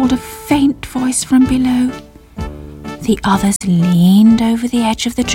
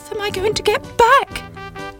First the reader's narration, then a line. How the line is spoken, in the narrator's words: cried Sybil